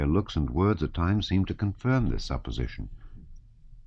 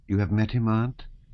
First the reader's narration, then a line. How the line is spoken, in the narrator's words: said she in a calm voice